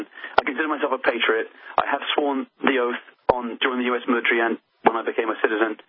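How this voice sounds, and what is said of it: British accent. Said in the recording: “You were born and raised in the UK ... despite the accent”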